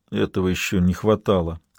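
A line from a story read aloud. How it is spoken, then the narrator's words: Muttered. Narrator (Russian): пробормотал Лабрюер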